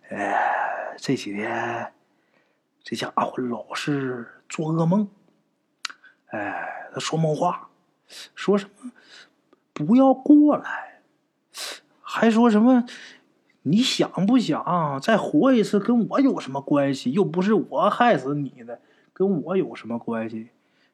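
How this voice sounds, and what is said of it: Quiet, hushed speech. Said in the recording (Chinese): “很小声的说”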